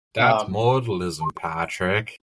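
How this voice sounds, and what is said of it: Put-on accent. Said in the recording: “What was that accent for?”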